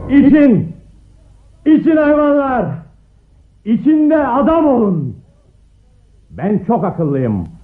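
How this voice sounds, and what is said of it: Shouting. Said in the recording (Turkish): “bağırmaya başladı”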